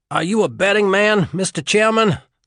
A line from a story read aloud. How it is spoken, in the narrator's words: Lawless asked while gasping to refill his lungs